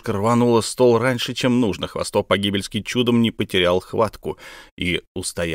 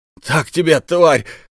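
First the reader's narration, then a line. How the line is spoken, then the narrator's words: Yell. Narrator (Russian): заорал Хвостов Погибельский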